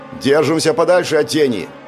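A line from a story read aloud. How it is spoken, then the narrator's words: Shout. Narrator (Russian): выкрикнул Павел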